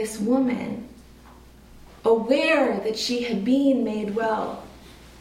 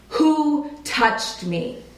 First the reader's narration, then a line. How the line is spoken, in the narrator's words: in this size of crowd, he had to bellow it out